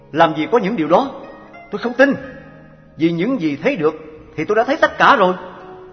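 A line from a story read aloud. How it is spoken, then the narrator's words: Loud voice. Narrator (Vietnamese): Anh ta bèn lớn tiếng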